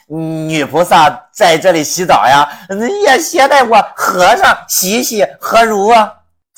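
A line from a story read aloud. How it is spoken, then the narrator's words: Lewd laugh. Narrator (Chinese): 猪八戒这个笑，那可不是好笑，一股的邪淫之气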